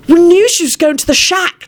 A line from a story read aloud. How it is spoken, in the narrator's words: Timothy shrieked